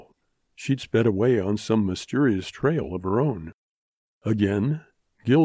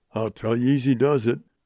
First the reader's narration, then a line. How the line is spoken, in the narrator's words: grumbled old Goodnight